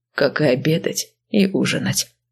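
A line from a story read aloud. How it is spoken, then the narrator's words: Calm. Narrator (Russian): спокойно оповестил Вениамин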